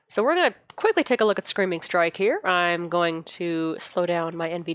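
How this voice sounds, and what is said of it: Sick-sounding voice. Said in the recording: “pardon the voice. ... I have had a cold since last Sunday.”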